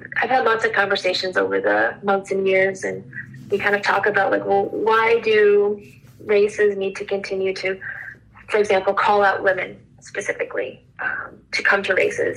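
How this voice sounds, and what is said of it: Choked-up emotional voice. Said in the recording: “I'm a little choked up here”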